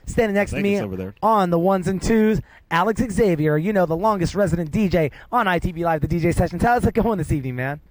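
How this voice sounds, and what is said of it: Radio announcer voice. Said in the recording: “my radio announcing voice”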